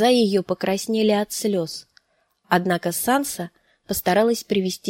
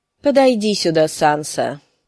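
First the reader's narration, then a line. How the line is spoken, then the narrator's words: Mildly stern. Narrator (Russian): сказал он не столь уж и строго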